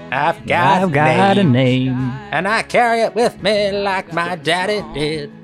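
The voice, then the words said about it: Imitates another person's singing voice. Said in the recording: “my Jim Croce impression”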